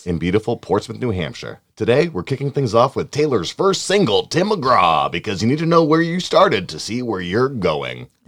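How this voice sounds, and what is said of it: Country music radio DJ voice. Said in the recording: “That's his country music radio voice”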